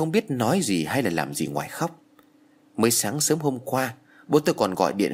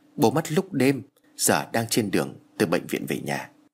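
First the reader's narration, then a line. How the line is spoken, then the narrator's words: Choked with tears. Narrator (Vietnamese): Thằng em của tôi nghẹn ngào trả lời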